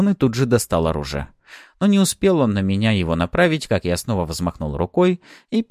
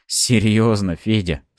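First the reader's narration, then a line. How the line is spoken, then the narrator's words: Ironic snort. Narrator (Russian): с иронией хмыкнул я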